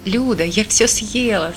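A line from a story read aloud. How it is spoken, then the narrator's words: Laughing. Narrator (Russian): смеялась я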